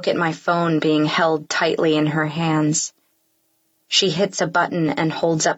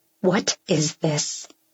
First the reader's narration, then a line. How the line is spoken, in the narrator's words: she says through gritted teeth